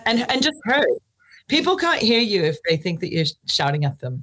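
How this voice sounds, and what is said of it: American accent. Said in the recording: “the accent that we're listening to is American”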